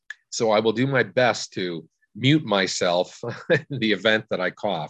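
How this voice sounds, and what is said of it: Raspy, hoarse voice. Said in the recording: “I'm just getting over bronchitis ... Voice, unfortunately, in my throat is still a little raspy.”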